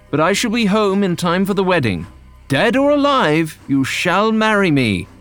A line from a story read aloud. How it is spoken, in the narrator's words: John shouted